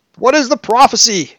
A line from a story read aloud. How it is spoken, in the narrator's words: He cried hysterically